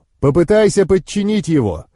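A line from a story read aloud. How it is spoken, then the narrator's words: Shouting in face. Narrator (Russian): крикнул я в лицо Розе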